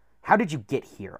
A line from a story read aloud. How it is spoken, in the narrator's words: I snapped